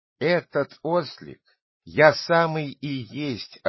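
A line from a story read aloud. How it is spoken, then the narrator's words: Laughing. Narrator (Russian): ответил ему Пиноккио, смеясь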